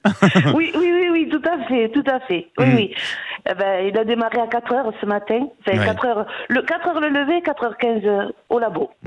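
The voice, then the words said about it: A pleasant regional accent. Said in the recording (French): “avec ce très bel accent.”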